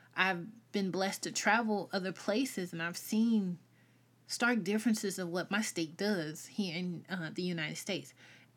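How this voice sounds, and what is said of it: Southern US accent. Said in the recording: “I'm Southern. If you can't hear my accent, I'm Southern.”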